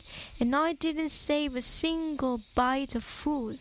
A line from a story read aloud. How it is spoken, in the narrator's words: George sighed, teeth chattering